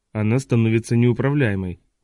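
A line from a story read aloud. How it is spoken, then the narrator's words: Low grumble. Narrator (Russian): понизив голос, буркнул Досилва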